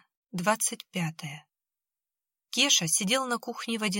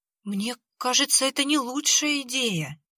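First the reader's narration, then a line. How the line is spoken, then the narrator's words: Frightened objection. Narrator (Russian): испуганно возразил Кеша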